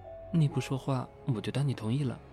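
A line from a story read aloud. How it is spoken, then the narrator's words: Muttering. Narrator (Chinese): 程心嘟囔了一句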